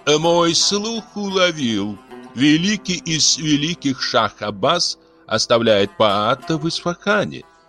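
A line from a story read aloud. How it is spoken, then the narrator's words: Amiable laughing drawl. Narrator (Russian): любезно протянула жена Карчихана, смеясь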